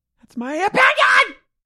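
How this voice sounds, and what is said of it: Screaming loudly. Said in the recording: “Stop screaming at me!”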